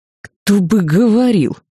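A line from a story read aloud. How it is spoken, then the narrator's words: Hiss. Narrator (Russian): прошипел Свен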